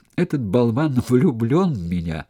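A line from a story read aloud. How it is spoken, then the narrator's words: Speaking through laughter. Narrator (Russian): сквозь смех выговорила Карина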